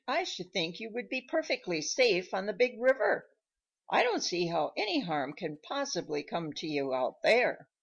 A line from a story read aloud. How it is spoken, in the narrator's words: he exclaimed